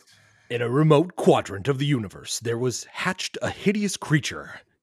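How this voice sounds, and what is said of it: Dramatic radio announcer voice. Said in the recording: “In my best radio voice.”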